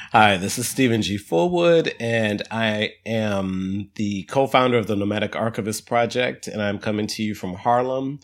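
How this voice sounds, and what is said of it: Congested, sick-sounding voice. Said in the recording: “I have a cold, I'm sure you can hear it.”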